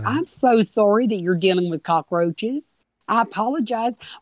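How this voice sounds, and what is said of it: Higher, softer Southern belle voice. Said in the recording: “it goes up in a little bit higher register, a little softer. ... He affects a Southern accent. ... He becomes like a Southern belle woman.”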